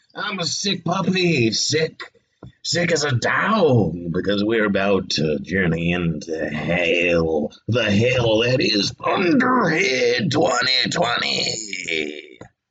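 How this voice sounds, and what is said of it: Wolfman Jack impression. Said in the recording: “doing a Wolfman Jack impersonation.”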